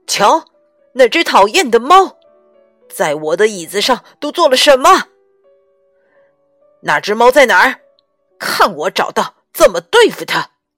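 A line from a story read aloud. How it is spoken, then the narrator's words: Loud yelling. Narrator (Chinese): 托马斯先生在哇哇大叫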